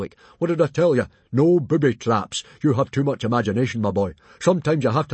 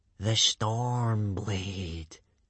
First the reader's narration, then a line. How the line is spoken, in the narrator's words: breathed Baggy Bum the Beer Belly